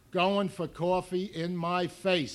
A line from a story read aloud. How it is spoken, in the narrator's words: somebody else said